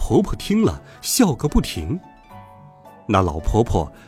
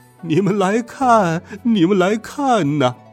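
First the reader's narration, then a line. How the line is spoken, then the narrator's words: Old women giggling foolishly. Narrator (Chinese): 两三个老妇人，痴痴的笑着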